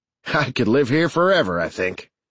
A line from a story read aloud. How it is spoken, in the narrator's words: Sarge said with a snort